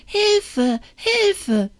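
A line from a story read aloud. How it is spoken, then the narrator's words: Calling out. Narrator (German): rief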